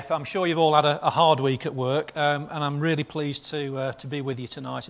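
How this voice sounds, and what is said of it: Northern English accent. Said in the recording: “I grew up in a Blackpool boarding house, so I do speak Northern”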